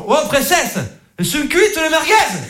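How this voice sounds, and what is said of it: Put-on accent. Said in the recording (French): “J'aime bien faire un accent,”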